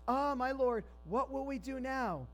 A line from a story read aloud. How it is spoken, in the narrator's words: he cried out to Elisha